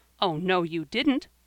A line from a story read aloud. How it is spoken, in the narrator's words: cried Percy, in the greatest alarm